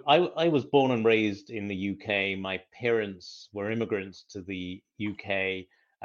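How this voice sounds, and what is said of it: British accent. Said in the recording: “I was born and raised in the UK ... that's why I've got this accent”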